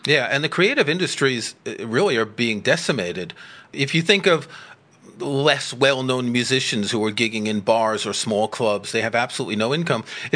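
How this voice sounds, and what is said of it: New York accent. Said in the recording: “I grew up in New York, as you can probably tell from my accent”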